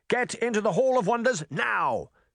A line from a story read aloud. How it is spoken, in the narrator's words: Charming shouted